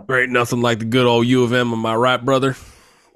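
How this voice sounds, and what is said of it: Put-on Southern accent. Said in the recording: “in a southern accent.”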